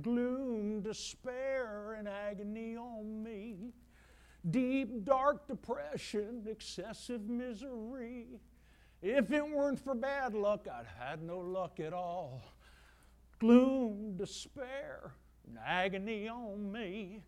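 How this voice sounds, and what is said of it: Sung in a hillbilly accent. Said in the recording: “I'm even doing it with a hillbilly accent for you right now.”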